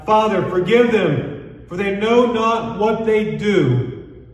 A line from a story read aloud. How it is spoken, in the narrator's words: Jesus cried out